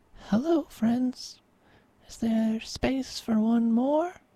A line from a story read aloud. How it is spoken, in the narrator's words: she called softly